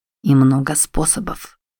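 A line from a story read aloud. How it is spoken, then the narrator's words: Quiet. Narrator (Russian): тихо добавил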